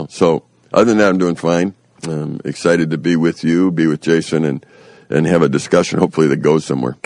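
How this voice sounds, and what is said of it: Congested voice, sounds like a cold. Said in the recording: “I might sound like I have a cold, and I do”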